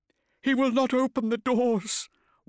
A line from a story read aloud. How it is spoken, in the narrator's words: wailed with a flagellant desperation